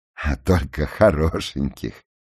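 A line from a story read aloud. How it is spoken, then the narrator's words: Laughing reply. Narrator (Russian): ответил смеясь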